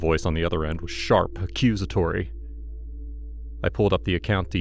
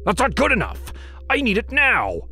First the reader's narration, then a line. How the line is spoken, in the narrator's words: he barked